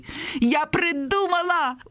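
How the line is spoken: Exclaimed. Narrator (Belarusian): ускрыкнула Веранічка

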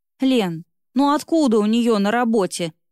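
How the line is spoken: Wry snort. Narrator (Russian): хмыкнула Светка

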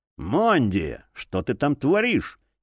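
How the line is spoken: Displeased exhale. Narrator (Russian): недовольно выдохнул алхимик

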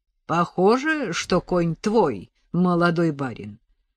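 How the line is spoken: Rich deep bass. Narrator (Russian): ответил человек красивым, глубоким басом

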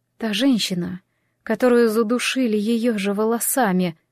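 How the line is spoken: Gloomy. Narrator (Russian): мрачно ответила Джемма

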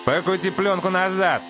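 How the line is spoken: Shouting. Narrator (Russian): кричал он

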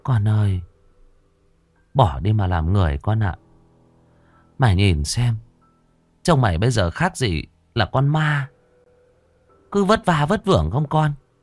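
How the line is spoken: Old woman sighing. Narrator (Vietnamese): Bà thở dài

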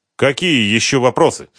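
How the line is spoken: Irritated question. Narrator (Russian): раздраженно спросил Сергей Викторович

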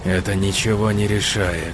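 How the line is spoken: Hiss. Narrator (Russian): прошипел лидер ниндзя

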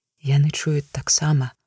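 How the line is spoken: Quiet, to himself. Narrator (Belarusian): прагаварыў не чалавек ціха, быццам самому сабе

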